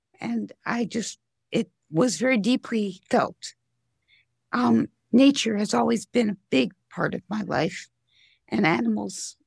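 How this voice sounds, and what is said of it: Voice sounds a little off. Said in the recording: “My voice is a little off because of surgery.”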